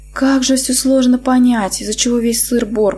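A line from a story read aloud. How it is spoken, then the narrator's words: Inner groan, hungover. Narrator (Russian): простонала я мысленно, понимая, что опять перебрала с алкоголем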